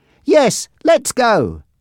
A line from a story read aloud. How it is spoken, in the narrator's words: Susan and Jack shouted together